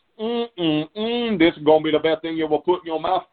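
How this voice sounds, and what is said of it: Imitated Cajun accent. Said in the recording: “that's as Cajun as the day is long ... a Cajun cook”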